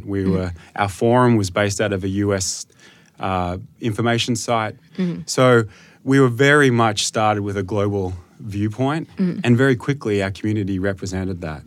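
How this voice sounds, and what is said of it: Australian accent. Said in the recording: “you operate in Australia ... I noticed that from your accent. ... Yeah, it's a bit obvious.”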